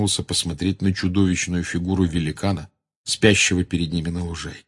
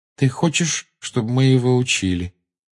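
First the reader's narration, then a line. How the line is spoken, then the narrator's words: Flat, colorless voice. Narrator (Russian): бесцветным голосом сказал Гарри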